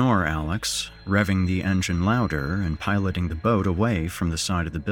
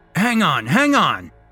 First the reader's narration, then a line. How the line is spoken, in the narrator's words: Alex shouts over the noise